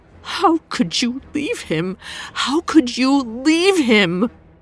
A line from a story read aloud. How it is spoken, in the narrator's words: She cried into his chest, whimpering